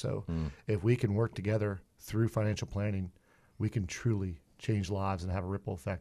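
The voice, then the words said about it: Slight accent. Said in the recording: “he's got a little accent”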